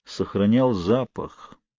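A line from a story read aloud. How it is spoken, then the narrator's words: Muttered. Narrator (Russian): пробормотал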